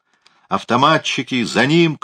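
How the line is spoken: Shout. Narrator (Russian): крикнул он

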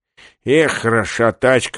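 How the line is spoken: Muttering under breath. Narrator (Russian): бормотал он себе под нос

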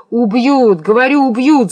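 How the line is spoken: Shout. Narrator (Russian): закричал Евграф

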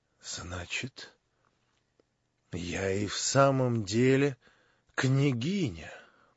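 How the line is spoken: Mocking whisper to herself. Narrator (Russian): прошептала Настасья Филипповна про себя, как бы насмешливо

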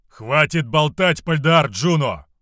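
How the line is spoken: Shout. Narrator (Russian): выкрикнул Равус

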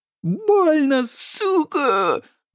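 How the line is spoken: Howling in pain. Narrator (Russian): взвыл Модест

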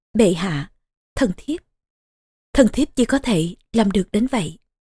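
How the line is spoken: Sigh, soft whisper. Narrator (Vietnamese): thở dài một tiếng, rồi khẽ thì thầm

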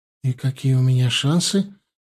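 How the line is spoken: Slightly trembling question. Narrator (Russian): немного дрожащим голосом поинтересовалась Алиса

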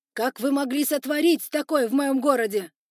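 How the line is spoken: Yelling in anger. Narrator (Russian): орал он паукам

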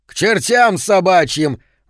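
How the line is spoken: Yelled. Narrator (Russian): заорал

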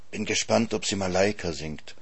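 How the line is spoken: Whispered. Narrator (German): flüstert Elsa Greicht mir zu

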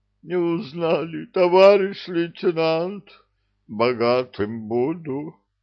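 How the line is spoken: Groan. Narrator (Russian): простонали

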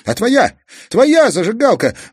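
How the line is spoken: Sudden shout. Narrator (Russian): вдруг закричал Казик

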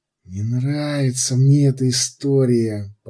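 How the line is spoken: Whisper. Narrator (Russian): прошептал Кумар

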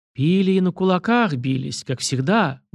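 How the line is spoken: Low amused chuckle. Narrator (Russian): усмехнулся вполголоса Александр Васильевич

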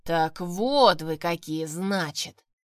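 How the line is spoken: Booming prince. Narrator (Russian): прогудел князь

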